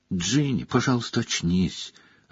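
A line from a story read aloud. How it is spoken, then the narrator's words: Desperate whisper. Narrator (Russian): отчаянно шептал Гарри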